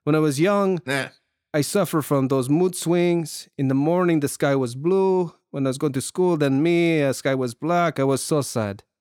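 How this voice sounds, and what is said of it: Imitates another person's accent. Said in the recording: “I should be doing the accent.”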